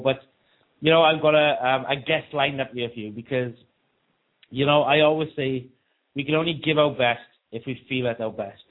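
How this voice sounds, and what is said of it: Sick, congested-sounding voice. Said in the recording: “as you can probably hear in my voice. I don't feel very well. Followed up with a cold”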